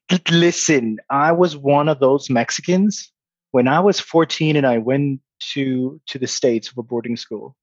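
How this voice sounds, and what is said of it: Hard-to-place accent. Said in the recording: “the way I speak is very weird. People don't know if I'm from South Africa or where are you from again?”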